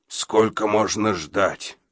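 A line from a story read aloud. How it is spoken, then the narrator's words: Hoarse question. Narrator (Russian): хрипло спросил Абадия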